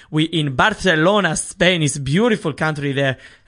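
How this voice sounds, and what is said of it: Put-on Spanish accent, not very good. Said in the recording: “I don't know how good that accent was... not very good... I'm working on the Spanish one.”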